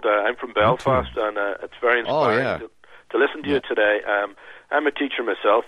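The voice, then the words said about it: Hoarse, congested voice from a cold. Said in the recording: “Excuse my voice. ... A bit of a cold.”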